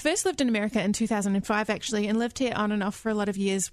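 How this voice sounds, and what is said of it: New Zealand accent. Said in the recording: “you're originally from New Zealand ... I wanted to sound like you, yeah. Which doesn't seem to be happening.”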